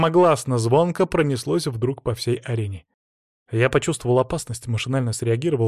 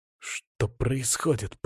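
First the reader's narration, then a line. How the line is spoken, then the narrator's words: Through gritted teeth. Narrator (Russian): процедил Алексей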